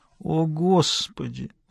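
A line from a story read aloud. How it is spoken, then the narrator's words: Disappointed groan. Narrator (Russian): Разочарованно простонала она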